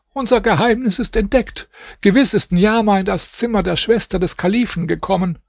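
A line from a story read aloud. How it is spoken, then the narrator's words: Old woman calling out. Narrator (German): Die Alte rief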